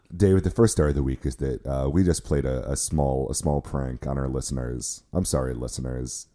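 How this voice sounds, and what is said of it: Unusually low-pitched voice. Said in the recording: “It's not Dave's voice that is weird. It is my voice. My voice is very low this week. I am having a low voice week.”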